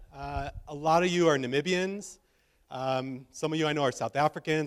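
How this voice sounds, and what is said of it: American English accent. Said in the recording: “you can already tell I'm a foreigner, I'm sure, by the way I'm talking ... you think I have an accent. So I'm from America.”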